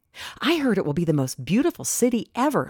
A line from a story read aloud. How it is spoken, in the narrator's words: Lily's friend Sarah whispered in class